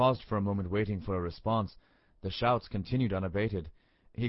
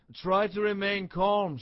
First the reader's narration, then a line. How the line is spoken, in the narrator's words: shouted Keeper Martin